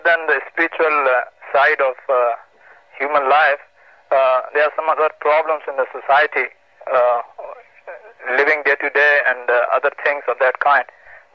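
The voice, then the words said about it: Indian English accent. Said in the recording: “your accent is evident. Are you from India?”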